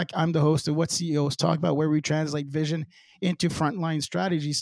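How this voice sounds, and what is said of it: Crackly, hoarse voice. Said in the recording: “my voice is crackling”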